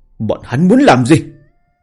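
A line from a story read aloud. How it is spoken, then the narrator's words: Deep growling roar. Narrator (Vietnamese): Hồ Diên Vô Hận trầm giọng gầm lên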